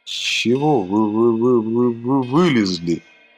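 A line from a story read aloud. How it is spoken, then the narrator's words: Stammering, barely audible. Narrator (Russian): Заикаясь, белыми губами произнес чуть слышно пластилин мира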